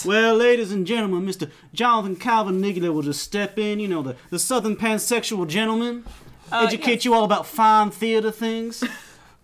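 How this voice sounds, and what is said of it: Put-on Southern gentleman accent. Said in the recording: “my Southern gentleman accent”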